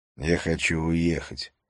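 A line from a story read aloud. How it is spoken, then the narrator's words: Plain. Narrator (Russian): сказал он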